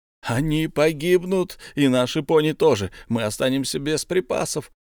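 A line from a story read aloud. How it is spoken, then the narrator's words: Moaning dwarves. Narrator (Russian): застонали остальные гномы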